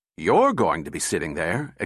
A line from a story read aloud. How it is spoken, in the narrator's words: exclaimed Bogart